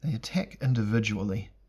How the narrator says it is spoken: Elric said in a somewhat detached tone, as if studying insects in a bottle

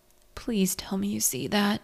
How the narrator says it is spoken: Archie groaned

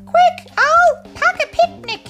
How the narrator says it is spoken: Macca cried

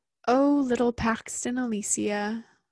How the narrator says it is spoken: Sora purred

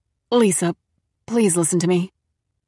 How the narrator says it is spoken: she said, her voice tight, urgent

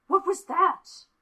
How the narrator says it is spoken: Roy gasped

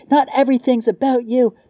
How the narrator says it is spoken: she shouted

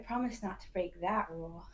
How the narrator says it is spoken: Noor replied solemnly before giggling

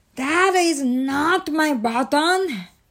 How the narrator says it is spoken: shouted Toad

